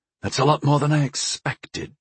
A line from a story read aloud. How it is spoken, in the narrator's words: I whispered